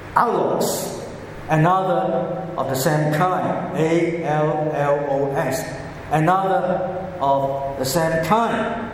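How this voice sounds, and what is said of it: Cantonese-accented English and Greek. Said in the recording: “my pronunciation of Greek is so heavily affected by my Cantonese accent. So this might be Cantonese Greek.”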